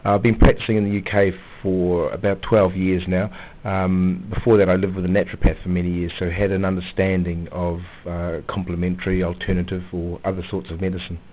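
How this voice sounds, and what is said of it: New Zealand accent. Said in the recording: “you've got a great accent... I'm from Auckland in New Zealand.”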